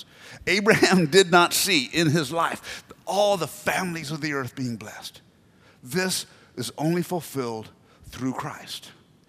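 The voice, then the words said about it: American accent. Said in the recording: “you can tell by my accent, I'm not originally from the island... I got this accent because my mom made me watch American television”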